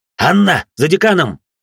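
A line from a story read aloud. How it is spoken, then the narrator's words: Barked. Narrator (Russian): рявкнул я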